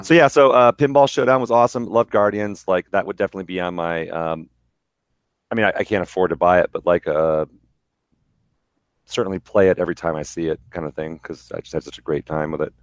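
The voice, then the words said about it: Strained, worn-out voice. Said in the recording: “My voice is all fucked up right now too. Not as bad as Gax, but it was the Descendants show that I went to on Friday”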